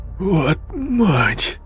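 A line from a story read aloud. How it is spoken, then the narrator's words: Shocked exhale. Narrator (Russian): выдохнул Игорь, побледнев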